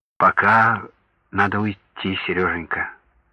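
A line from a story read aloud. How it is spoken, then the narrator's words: Gentle. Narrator (Russian): мягко подтвердила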